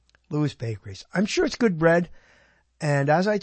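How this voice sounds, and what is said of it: Usual voice. Nothing is said of it.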